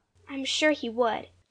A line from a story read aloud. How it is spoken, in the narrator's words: Jane agreed kindly